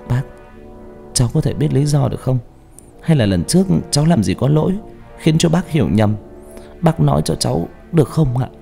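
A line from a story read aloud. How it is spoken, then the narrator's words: Trembling, hesitant. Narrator (Vietnamese): Dương im lặng mới run run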